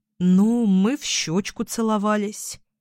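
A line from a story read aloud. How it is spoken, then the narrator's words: Drawling. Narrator (Russian): протянула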